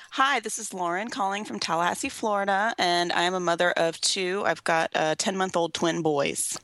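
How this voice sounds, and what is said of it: Weary, tired-sounding voice. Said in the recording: “You sound like a little weary ... A little bit tired”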